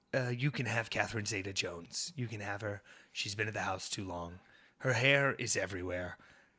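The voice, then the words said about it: Imitates another person's voice. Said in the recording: “did you like my Michael Douglas? ... no one can do that accent. ... it's so specific.”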